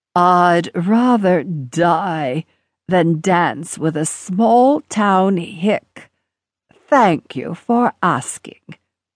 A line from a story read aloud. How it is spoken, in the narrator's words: in her perfectly modulated voice, said